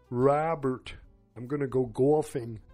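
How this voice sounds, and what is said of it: Strong New York accent, Raymond impression. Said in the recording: “as Raymond would say ... put a real strong New York accent, it kind of sounds like Raymond. Not very good”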